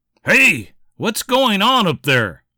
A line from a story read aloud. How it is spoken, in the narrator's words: cried Jeremiah after the thump just about knocked him out of his seat